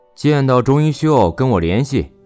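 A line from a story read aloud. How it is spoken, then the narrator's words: Loud bellowing shout. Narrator (Chinese): 霍刚扯着嗓门喊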